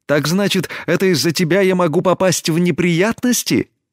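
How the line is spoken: Indignant exclamation. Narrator (Russian): Негодуя воскликнула Тесми

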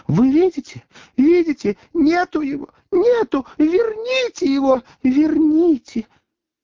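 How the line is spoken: Shrieking, distraught woman. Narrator (Russian): Красавица-секретарь взвизгнула и, ломая руки, вскричала

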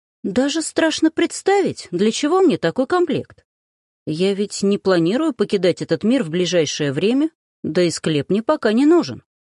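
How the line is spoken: Playful, cheerful. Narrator (Russian): сменив выражение лица на игривое, весело заметила

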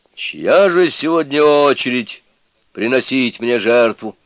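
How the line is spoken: Spirit speaking loudly. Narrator (Russian): дух громко сказал

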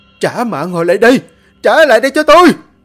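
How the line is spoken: Piercing scream. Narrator (Vietnamese): Tiếng gào thét xé tan màn đêm vô tận

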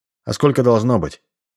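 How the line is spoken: Young man's snort. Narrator (Russian): Парень хмыкнул

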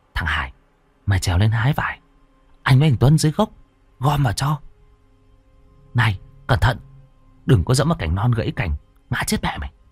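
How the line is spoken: Boys whispering. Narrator (Vietnamese): hai thằng chúng nó thì thào

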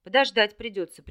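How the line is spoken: Glum snort. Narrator (Russian): прищурился Орлик и невесело хмыкнул

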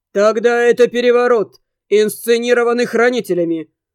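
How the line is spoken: Loud and clear. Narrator (Russian): ответ отца прозвучал громко и четко

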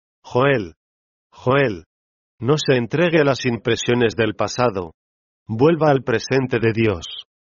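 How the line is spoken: Firm murmur. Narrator (Spanish): murmuraba con voz firme

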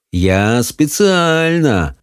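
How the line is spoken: Purring. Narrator (Russian): промурлыкал Хоул

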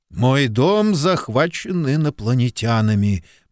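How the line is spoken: Gloomy mutter. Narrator (Russian): мрачно буркнул Куб

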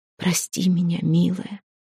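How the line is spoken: Intimate whisper. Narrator (Russian): прошептал он ей в губы

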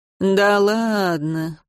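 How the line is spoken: Drawling. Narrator (Russian): протянул он

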